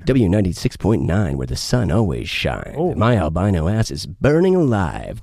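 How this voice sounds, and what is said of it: Radio DJ announcer voice. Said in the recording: “You got a good radio voice ... Do like a W96.9.”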